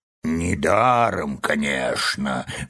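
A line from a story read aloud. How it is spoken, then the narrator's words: Gruff mutter. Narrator (Russian): буркнула мудрая птица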